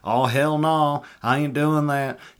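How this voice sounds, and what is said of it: Put-on Southern accent. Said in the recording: “the Southern accent”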